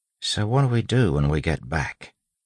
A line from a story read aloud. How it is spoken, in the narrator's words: Wayne asked softly